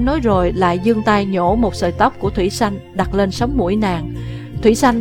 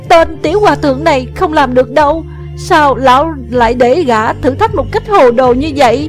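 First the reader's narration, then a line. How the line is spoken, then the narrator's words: Shouted. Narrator (Vietnamese): Nàng la lên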